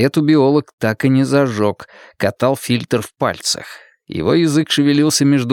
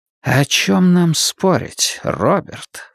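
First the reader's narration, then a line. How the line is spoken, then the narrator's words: Insinuating question. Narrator (Russian): вкрадчиво поинтересовался Сарасти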